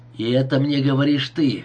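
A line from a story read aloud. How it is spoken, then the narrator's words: Hoarse wheeze. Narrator (Russian): прохрипел Маркомбр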